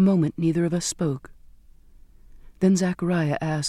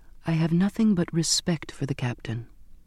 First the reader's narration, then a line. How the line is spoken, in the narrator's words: cut in with the only voice I had, a faint whisper